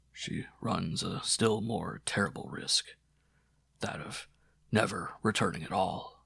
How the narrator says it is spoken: After a little silence, added gravely

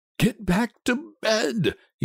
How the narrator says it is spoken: he said unsteadily

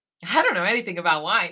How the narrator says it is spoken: he laughs

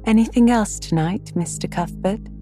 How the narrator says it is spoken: Miss Harris cheerfully inquired

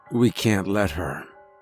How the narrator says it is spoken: he said softly

